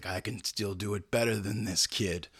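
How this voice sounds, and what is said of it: Poor Clint Eastwood impression. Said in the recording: “my terrible Clint Eastwood impression.”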